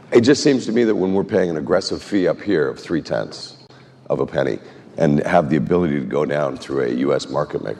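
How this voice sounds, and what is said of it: Voice strained from illness. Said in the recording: “apologize for my voice, I'm sort of fighting something”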